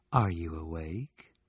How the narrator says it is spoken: murmured in his ear

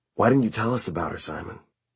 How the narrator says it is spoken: Luke said very quietly

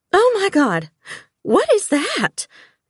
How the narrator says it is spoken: Tamika gasped

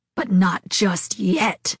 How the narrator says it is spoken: Ari hissed from behind

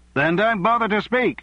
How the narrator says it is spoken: someone shouted from the Labour benches

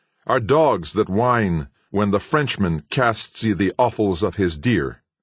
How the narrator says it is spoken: returned Uncas, looking sternly around him

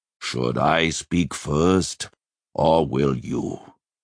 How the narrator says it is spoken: he growled at last

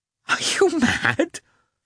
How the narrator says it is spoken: she exclaimed, flushing with vexation

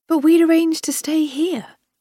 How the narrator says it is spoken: I exclaimed

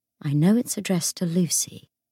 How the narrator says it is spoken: he said in a low voice

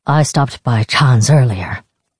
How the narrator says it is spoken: his father said

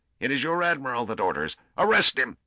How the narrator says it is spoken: He paused and then shrieked

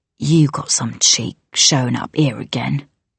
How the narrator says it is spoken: Too Tall hissed

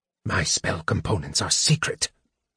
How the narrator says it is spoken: Raistlin whispered, irritably

